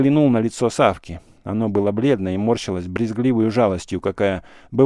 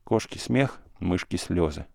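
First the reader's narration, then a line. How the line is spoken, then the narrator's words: Sigh. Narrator (Russian): вздохнул он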